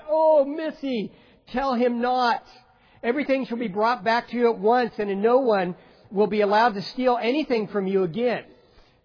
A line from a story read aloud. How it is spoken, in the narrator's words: they cried out